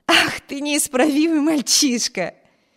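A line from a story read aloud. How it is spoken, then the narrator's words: Laughing. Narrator (Russian): рассмеялась Эми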